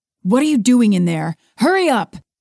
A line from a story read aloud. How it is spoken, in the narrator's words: Travis yelled